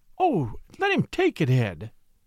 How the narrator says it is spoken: cried his wife

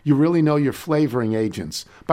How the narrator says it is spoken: a character is moved to earnestly remark

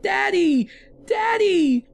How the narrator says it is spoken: screamed

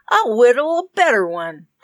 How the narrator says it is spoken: Tom said triumphantly

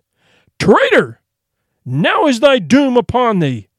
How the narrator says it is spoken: the king, his heart nigh broken with grief for the loss of his true knights, cried with a loud voice

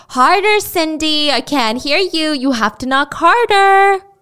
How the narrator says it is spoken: her mom would yell

